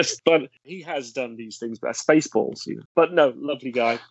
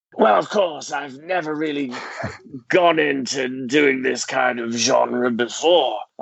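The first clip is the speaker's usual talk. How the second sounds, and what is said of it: Throat-straining impression of an actor. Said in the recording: “great impression... It hurts your throat.”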